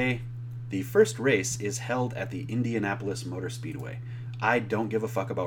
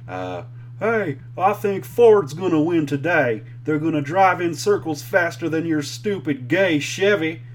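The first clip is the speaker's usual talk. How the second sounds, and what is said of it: Stereotypical NASCAR driver voice. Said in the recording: “my impression of the stereotypical NASCAR driver”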